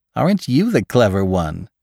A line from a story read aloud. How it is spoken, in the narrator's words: She laughed